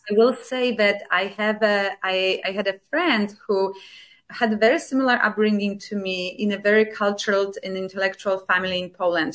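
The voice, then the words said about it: Polish accent in English. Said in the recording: “I was speaking English with Polish accent. And it remains the same today. ... Now you can hear my accent”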